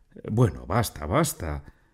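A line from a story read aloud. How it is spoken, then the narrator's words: Exclaiming. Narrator (Spanish): exclamé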